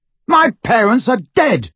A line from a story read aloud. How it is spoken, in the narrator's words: Harry bellowed